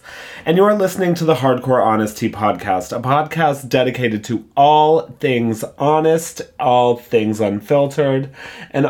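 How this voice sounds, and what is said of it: Hoarse, nearly lost voice. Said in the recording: “I don't know where my voice is. It's clearly gone.”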